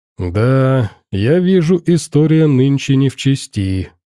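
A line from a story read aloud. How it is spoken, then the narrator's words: Sighing. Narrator (Russian): доктор вздохнул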